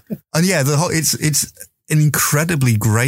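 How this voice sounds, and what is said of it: Usual voice. Nothing is said of it.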